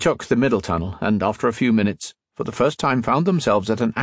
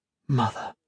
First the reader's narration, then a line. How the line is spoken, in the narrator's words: he said softly